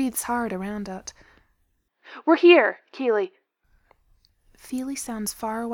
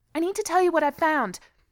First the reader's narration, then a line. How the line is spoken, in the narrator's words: he says desperately, words tumbling over one another